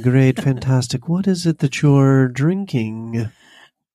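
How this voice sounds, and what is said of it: Sinister villain voice, bad British accent. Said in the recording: “You sound like a sinister villain from like a bad British movie. ... I have a terrible NPR voice.”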